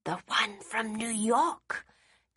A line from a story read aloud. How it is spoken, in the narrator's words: Daisy said in a whisper, relishing that she was the one breaking the news to Eleanor